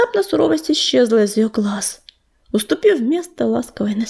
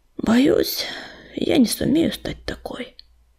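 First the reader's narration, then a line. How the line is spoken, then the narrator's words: Barely audible breath. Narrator (Russian): еле слышно выдохнула она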